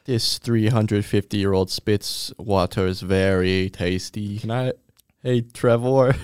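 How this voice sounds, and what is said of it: Put-on vaguely Russian or Baltic accent. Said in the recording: “it's not really that Russian ... you were probably from the Netherlands ... It's a little Russian, no? ... Baltic, I suppose.”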